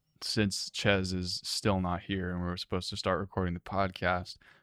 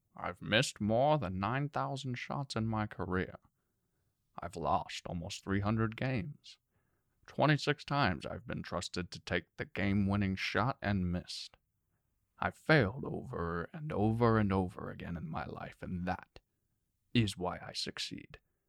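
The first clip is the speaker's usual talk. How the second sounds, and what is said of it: Imitates another person's voice. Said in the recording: “do a Morgan Freeman impression”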